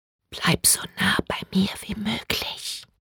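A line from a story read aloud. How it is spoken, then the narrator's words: Whisper in ear. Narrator (German): flüsterte Bree in Lils Ohr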